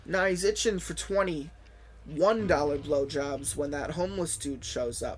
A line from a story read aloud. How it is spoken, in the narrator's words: taunted Brad